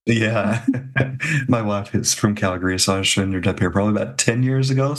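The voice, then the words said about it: Tennessee American accent. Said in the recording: “I'm originally from the States as well, Adam, not Florida, but Tennessee. ... That's where that accent's coming from.”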